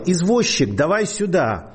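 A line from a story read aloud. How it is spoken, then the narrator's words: Shouting. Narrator (Russian): Человек кричал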